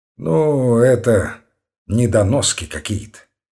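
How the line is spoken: Weary disgusted remark. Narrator (Russian): сказал с отвращением, устало

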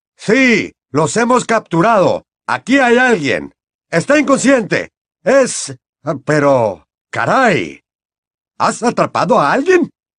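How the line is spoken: Incredulous shout. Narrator (Spanish): le gritó el señor Crouch con tono de incredulidad

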